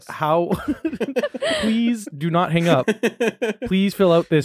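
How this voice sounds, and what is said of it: Robotic voice. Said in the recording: “Why do you sound like a robot?”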